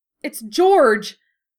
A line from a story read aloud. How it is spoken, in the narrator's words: Ginny exclaimed, horrified at the sight of her brother